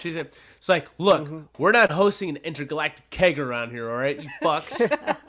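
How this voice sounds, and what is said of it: Impression of a gruff boss. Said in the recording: “My Webster impression. ... Honestly, not far from it. Close enough.”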